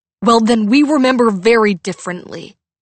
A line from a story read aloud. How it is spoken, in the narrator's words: Max snapped